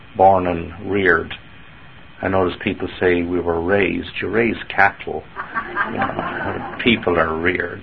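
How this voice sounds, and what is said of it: Irish accent from Dublin. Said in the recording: “Dublin, Ireland is my hometown... how come you've never lost your accent?”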